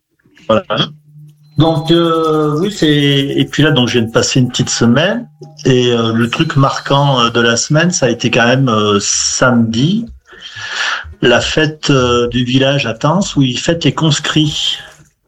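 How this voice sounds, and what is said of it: Regional French Saint-Étienne accent. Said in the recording (French): “j'ai vraiment l'impression de retrouver l'accent de Bourg-en-Bresse ... j'ai l'accent de Saint-Étienne ... stéphanois”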